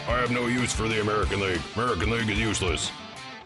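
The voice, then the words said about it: Impression of Randy Jones. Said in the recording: “That's not a bad impersonation. That's not bad at all. ... that's exactly what I'd have said ... the guy that does the voice”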